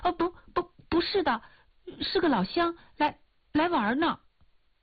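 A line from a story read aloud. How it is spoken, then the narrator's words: Hurried geese. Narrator (Chinese): 一群鹅急忙说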